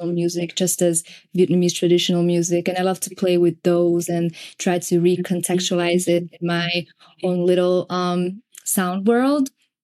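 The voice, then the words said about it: Hungarian-accented English. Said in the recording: “my accent is actually Hungarian ... You have an accent ... you don't have an Asian accent”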